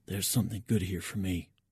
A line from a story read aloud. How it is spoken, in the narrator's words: I whisper in Petrov's direction